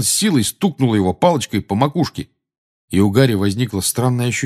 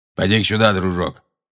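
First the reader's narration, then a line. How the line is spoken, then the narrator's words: Gruff grumble. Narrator (Russian): проворчал Грюм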